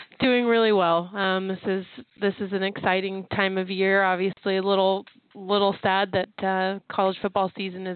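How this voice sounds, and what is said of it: Strained voice, nearly losing it. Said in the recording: “I'm about a day away from losing my voice”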